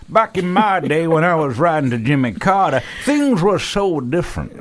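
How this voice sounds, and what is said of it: Put-on old man voice. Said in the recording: “where are we getting that voice from ... that's now your accent ... Old man”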